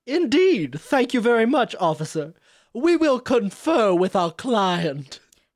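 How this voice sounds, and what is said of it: Put-on accent. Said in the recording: “you can drop the accent.”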